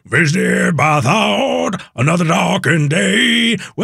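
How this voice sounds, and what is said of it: Imitates a rock singer's voice. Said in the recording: “my Eddie Vedder impression”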